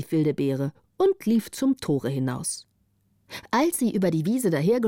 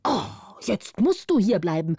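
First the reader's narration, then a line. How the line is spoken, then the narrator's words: Old man, angry shout. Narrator (German): rief der Alte zornig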